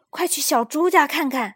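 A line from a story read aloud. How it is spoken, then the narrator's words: Forceful shout. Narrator (Chinese): 弗洛格用力叫道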